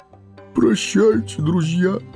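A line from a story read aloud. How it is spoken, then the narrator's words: Sobbing. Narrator (Russian): всхлипнул он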